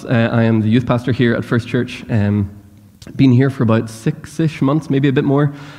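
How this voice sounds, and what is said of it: Northern Irish accent. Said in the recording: “I'm not from here. I speak weird ... I can't dilute my accent too much ... I can't be too Northern Irish ... I grew up in Northern Ireland”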